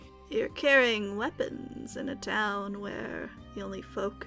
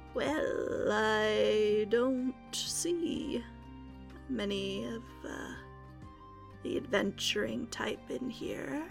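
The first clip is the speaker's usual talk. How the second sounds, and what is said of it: Very slow Southern drawl. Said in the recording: “with a very, very slow, obviously southern sort of accent”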